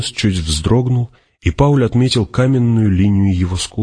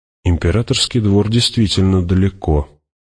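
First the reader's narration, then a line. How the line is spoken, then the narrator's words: Mutter. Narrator (Russian): пробормотал Кинес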